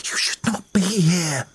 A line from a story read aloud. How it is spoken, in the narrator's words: she whispered, catching her breath